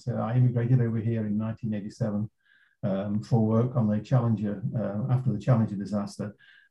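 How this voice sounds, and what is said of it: English accent. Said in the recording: “despite my English accent.”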